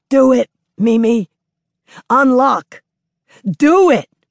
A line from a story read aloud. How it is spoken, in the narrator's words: The gray-haired woman shouts him down